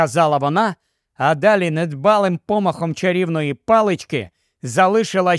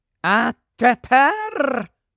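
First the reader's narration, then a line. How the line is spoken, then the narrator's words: Triumphant voice. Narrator (Ukrainian): промовила вона тріумфальним голосом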